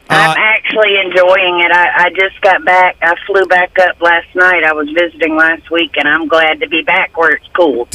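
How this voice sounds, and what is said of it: Southern US accent. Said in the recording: “you came where from somewhere in the South, right? ... South Carolina ... a tune-up on your accent? ... It sounds good.”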